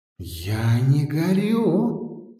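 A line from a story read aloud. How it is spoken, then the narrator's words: Thoughtful, to himself. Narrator (Russian): сказал он сам себе задумчиво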